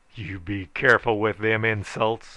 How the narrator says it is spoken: I roared menacingly

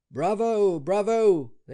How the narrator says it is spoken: they shouted

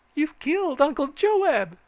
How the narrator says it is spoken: she shrieked

